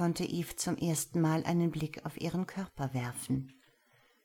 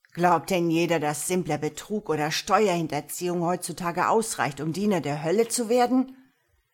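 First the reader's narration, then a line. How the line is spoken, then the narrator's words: Blustering, angry. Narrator (German): polterte er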